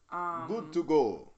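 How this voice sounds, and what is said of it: Imitates another person's voice. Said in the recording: “That was my Sean Paul impersonation. ... That's horrible.”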